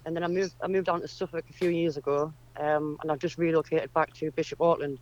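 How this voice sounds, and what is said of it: Northern English accent, not Suffolk. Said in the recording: “that's not a Suffolk accent, is it”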